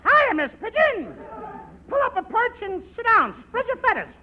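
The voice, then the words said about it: High-pitched put-on voice. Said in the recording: “high voice.”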